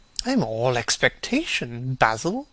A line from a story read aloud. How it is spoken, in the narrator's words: murmured his companion